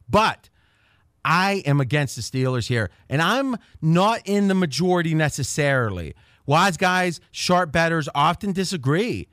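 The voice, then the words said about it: Pittsburgh and rural Ohio accent. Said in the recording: “It's a little bit of a Pittsburgh accent and a little bit of the hills of Ohio ... So just a little more hillbilly than Pittsburgh”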